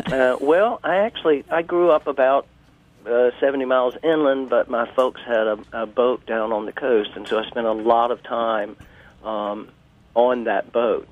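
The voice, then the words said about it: Georgia Southern US accent. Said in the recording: “Your accent does tell... my accent is Georgia”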